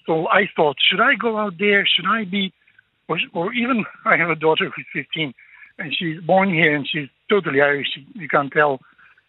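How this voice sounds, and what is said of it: Foreign non-Irish accent. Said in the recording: “you can sense from my accent and my name that I am foreign myself”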